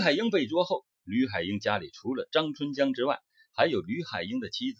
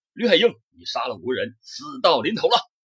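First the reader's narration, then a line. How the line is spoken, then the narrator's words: Loud shout. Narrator (Chinese): 魏忠立大声喊道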